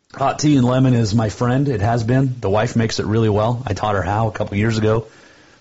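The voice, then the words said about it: Hoarse, failing voice. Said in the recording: “you're stuck with this voice ... when I first started getting sick and losing my voice”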